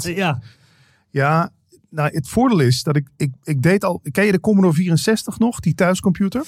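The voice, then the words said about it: Northern Dutch accent, not Limburg. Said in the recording (Dutch): “En je hoort het nu ook. Ik heb gewoon die, dat accent van de mensen van boven de rivieren heb ik overgenomen ... Je hoorde het aan mij eigenlijk niet dat ik uit Limburg kwam.”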